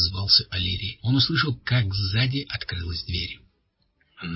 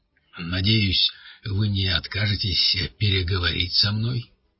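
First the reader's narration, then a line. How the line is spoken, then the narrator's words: Deep voice. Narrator (Russian): произнес вошедший глубоким голосом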